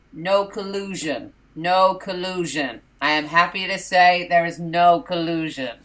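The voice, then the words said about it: Imitates another person's voice, robotic repetition. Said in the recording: “quite a good impression... Sounds like a broken robot. Like one of those toys that gets its catchphrases stuck.”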